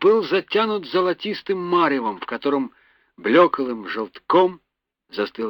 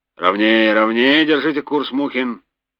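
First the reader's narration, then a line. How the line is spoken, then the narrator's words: Grumbling. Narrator (Russian): проворчал Горин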